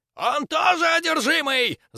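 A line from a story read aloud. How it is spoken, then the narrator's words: Shrieked. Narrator (Russian): завизжал Светочей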